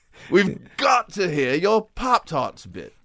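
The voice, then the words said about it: Attempted British accent. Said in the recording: “I don't know if that's a British accent. I don't know what accent that was. ... It was close. It was good.”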